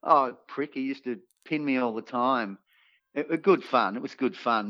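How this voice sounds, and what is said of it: Australian accent. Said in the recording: “they tell you've got an Aussie accent ... they'd know you're an Aussie”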